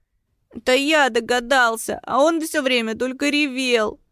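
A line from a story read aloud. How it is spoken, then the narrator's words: Trembling babble. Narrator (Russian): дрожащим голосом пролепетал Витес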